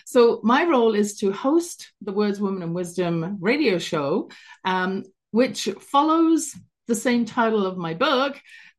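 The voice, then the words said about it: London English accent. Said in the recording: “originally London, England. You can hear my accent in the background there”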